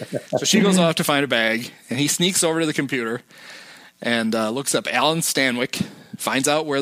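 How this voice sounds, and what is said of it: Usual voice. Nothing is said of it.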